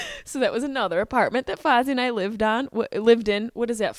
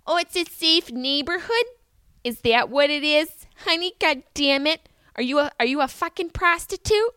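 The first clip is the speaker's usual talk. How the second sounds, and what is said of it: Upstate New York accent. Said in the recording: “her upstate Syracuse accent”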